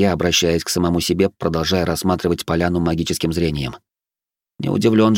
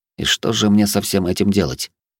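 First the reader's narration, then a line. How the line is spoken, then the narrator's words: Muttered under breath. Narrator (Russian): буркнул я себе под нос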